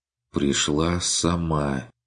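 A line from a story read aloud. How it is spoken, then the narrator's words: Quiet repetition. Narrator (Russian): повторил Курт тихо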